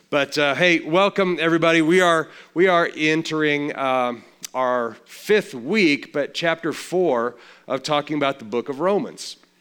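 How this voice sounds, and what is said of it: Slightly raspy voice. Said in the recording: “my throat's a little bit raspy”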